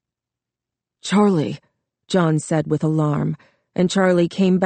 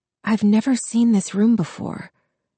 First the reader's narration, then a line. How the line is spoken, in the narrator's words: Charlie whispered